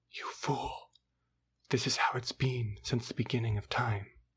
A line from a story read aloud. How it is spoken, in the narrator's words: whispers